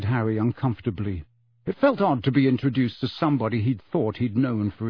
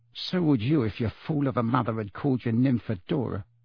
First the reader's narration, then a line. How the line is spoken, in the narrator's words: muttered Tonks